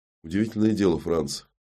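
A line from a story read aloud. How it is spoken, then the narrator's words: Sad, smiling tone. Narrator (Russian): грустно улыбнулся комиссар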